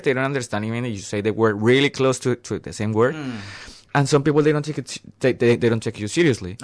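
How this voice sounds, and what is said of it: Colombian accent. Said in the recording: “This is my Colombian accent.”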